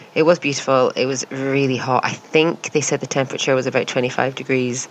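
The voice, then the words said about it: Exhausted, unenthusiastic tired voice. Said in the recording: “you can actually tell by my voice that I'm pretty done in now ... I'm not as enthusiastic sounding as I would like to be”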